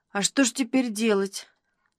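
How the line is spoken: Dejected question. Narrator (Russian): Упавшим голосом спросил Никитин

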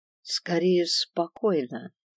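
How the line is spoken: Even voice. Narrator (Russian): ровным голосом сообщил Свендал

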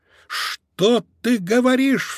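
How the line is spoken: Sudden cry. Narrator (Russian): вскрикнул Марсель

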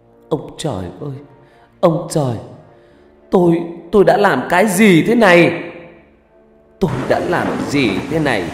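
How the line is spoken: Wailing, screaming woman. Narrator (Vietnamese): người đàn bà này gào khóc, thét lên

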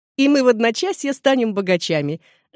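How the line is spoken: Laughing. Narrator (Russian): засмеялась Эдна

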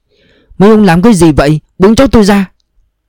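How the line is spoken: Old woman shouting. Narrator (Vietnamese): Bà già miệng la lên

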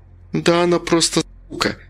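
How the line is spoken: Curt, through clenched teeth. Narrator (Russian): сквозь зубы бросила Алена

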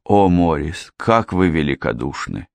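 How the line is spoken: Moved, touched voice. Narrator (Russian): растроганным голосом произнесла Мэри

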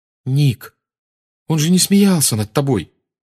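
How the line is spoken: Exclamation. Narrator (Russian): воскликнула Гермиона

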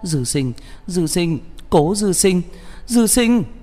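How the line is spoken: Sobbing, calling out. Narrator (Vietnamese): Cô không nhịn được mở miệng, kèm theo tiếng khóc nức nở gọi tên hắn

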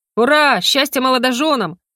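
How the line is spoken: Shouted cheer. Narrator (Russian): закричал кто-то из адептов

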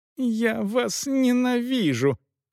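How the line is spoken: Muffled squeaking. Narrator (Russian): пищала из перин госпожа Эшбахта

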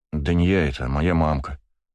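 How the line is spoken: Gruff mutter. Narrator (Russian): буркнул Сева

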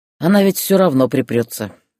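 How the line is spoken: Snorting. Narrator (Russian): хмыкнул Юра

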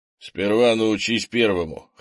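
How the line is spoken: Wry snort. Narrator (Russian): хмыкнул Крис

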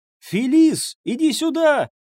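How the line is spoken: Shouting. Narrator (Russian): крикнула Анна

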